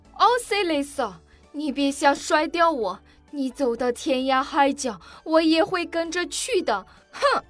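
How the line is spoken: Angry, huffy. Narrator (Chinese): 夏绿蒂气狠狠地说道

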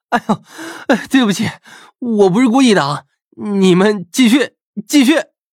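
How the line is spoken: Laughing apologetically. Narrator (Chinese): 张胖子忍不住笑道

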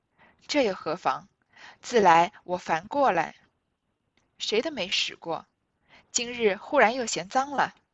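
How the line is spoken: Laughing. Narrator (Chinese): 尤氏笑道

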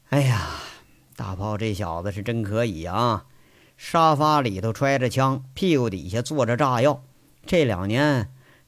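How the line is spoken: Helpless sigh. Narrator (Chinese): 杨伟很无奈的叹口气，说了

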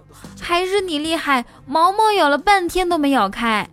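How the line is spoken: Joyful shout. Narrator (Chinese): 他欢天喜地的大叫

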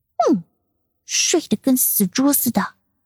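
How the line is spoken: Quiet muttering. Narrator (Chinese): 舒云才小声的嘀咕

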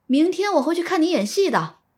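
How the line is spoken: Calling out. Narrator (Chinese): 苏若良在后面喊了一声

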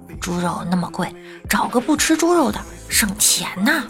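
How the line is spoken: Quiet. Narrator (Chinese): 他小声说

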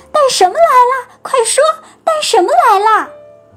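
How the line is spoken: Shouting again. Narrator (Chinese): 他们又喊叫起来

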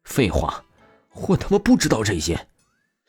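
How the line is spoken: Furious. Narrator (Chinese): 陆展元极其怒意的出声道

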